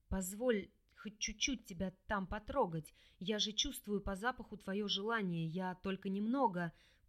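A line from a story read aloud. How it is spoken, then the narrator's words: Aroused hoarse whisper in ear. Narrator (Russian): прохрипел на ухо распаленный мужчина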